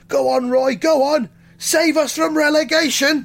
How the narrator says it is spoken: they shout

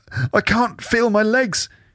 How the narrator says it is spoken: she whimpers, tears welling in her eyes

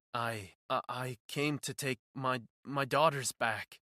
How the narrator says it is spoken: he stammered, looking around nervously

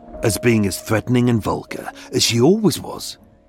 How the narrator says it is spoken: she spat at him

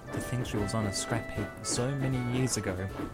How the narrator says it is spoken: he said quietly to Annie

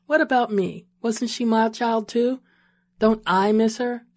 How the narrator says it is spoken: she asked

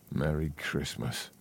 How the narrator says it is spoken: he muttered, and shivered again, not happy with the way his voice drifted away

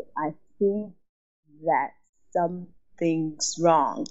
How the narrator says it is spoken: my speech was going to be slurred, I said really slowly

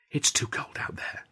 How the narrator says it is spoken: she whispered

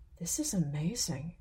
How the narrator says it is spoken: whispered Varay

